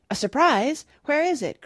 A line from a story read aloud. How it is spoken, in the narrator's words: cried Oliver